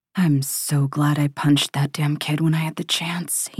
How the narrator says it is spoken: he mutters

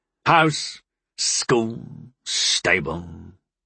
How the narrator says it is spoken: Nexus growled

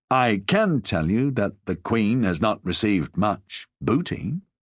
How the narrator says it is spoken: he said in a reasonable tone of voice

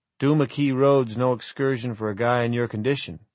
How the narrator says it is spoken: he'd said

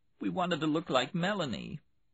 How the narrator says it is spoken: Between sobs, she said

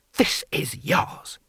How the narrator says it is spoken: he hissed

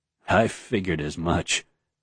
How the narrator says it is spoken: Galadin muttered

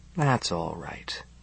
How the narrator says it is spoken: he murmurs

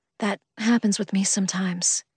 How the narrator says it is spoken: I breathed

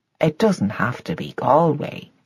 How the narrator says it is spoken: said Patrick gently in his wife's ear

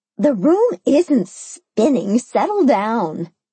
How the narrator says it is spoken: Mimi chuckled

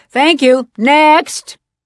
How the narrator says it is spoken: the heartless producer shouts

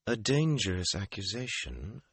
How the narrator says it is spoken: she said calmly

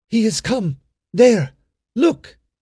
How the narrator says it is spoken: cried Iris

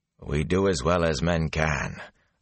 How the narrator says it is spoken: Agumar said dryly

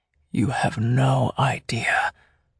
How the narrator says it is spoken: he whispered in my ear

